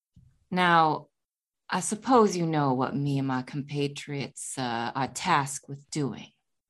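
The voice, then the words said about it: Very low, quiet voice. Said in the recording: “speak in a very low voice.”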